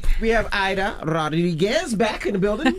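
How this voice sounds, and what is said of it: Put-on Dominican accent, rolled R. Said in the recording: “That accent was so crazy... I was trying to get my Rodriguez. I couldn't get it... Why roll the R?... I'm trying to get my Dominican.”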